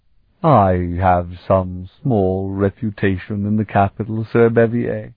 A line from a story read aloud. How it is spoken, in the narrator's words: Elrond was saying in a lofty tone of voice